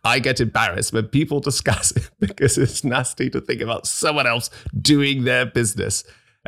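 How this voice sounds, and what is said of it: Reading aloud in weird voice. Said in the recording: “reading out my comment in such a weird voice”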